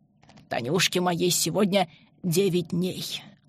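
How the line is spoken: Plain. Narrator (Russian): ответил Семен Алексеевич

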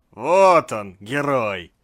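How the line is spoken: Displeased mutter, almost shouted. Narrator (Russian): недовольно пробормотал доктор, проглатывая кусок блина, и почти выкрикнул

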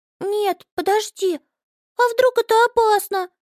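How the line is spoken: Anxious squeak. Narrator (Russian): пискнула Амелия и в тревоге

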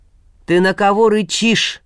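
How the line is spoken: Menacing shout. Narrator (Russian): грозно вскрикнул Добрыня Никитич

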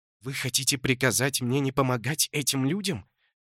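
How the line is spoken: Through clenched teeth. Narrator (Russian): процедила Талия сквозь стиснутые зубы

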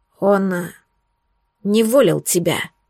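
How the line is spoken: Strained, forced out. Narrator (Russian): с трудом выдавил Верховный Альп

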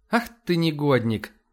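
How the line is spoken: Laughing. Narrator (Russian): рассмеялась Ива

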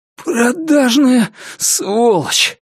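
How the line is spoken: Hoarse rasp. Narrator (Russian): прохрипел он

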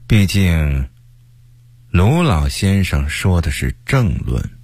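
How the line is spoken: Cool, resentful, indifferent. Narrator (Chinese): 曹化淳，因为不满高启前近2-3年爬得太快 这才淡淡地说了句

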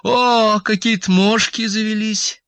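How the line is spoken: Joyful. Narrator (Russian): сказала она радостно

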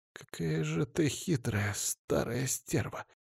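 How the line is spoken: Grumbling. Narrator (Russian): буркнула Самина

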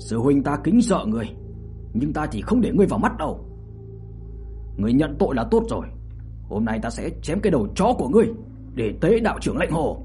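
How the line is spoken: Angry speech. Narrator (Vietnamese): Trần Khiếu Hổ giận dữ mà nói

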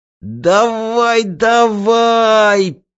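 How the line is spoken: Strained, self-encouraging. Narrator (Russian): подбадривая самого себя, выдавил Вакса

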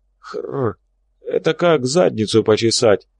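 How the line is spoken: Hoarse voice. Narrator (Russian): раздался голос хрипатого Боба

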